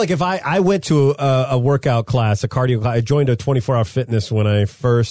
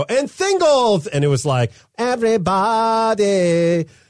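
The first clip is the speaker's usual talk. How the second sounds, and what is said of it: Imitated thick Filipino accent. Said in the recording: “a guy who had a thick Filipino accent, and he would go”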